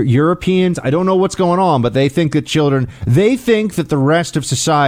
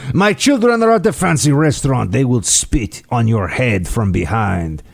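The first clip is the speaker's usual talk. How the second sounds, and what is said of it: Put-on fancy European accent. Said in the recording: “fancy European accent”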